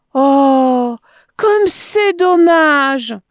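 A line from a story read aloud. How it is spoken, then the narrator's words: Exclaiming. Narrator (French): s'écria-t-il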